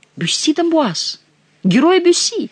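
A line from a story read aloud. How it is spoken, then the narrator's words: Enthusiastic young exclamation. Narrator (Russian): восторженно воскликнул юный медик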